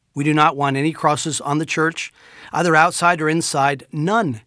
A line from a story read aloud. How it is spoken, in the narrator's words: said